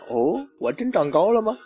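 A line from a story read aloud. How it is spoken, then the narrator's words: Goofy laugh. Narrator (Chinese): 樱木憨笑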